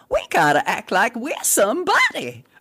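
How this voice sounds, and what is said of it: Scratchy high Southern Alabama voice. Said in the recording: “She had a voice that was kind of scratchy and high, and she was from the South, from Alabama ... That's my granny's voice. I mean, best as I can do it.”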